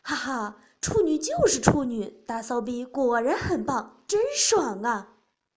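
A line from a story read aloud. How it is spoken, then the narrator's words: Ecstatic shouting. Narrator (Chinese): 小吴尽情地喷射着精液，喊着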